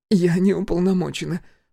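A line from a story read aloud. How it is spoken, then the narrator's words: Sobbing. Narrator (Russian): всхлипнула Аня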